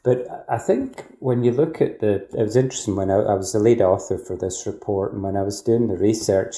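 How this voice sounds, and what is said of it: Scottish accent. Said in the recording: “you'll guess from my accent. I'm not from Australia originally, from Scotland.”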